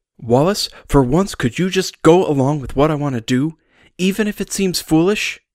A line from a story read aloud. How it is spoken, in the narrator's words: Wallace sighed